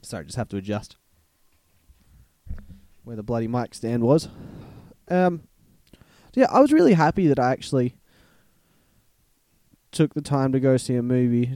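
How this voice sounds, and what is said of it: Congested, stuffy-sounding voice. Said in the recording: “I'm a bit stuffed up and I'm just coughing ... that's why my voice sounds a bit weird at the moment”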